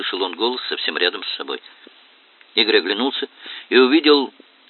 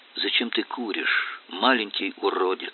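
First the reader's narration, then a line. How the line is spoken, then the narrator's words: Almost tender question. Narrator (Russian): спросил незнакомец почти ласковым голосом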